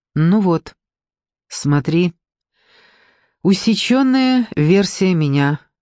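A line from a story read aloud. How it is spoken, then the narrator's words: Calm. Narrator (Russian): сказал Руслан спокойно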